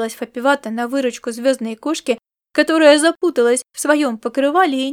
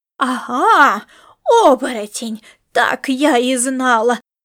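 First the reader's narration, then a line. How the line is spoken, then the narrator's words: Exclaimed. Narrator (Russian): воскликнула Маришка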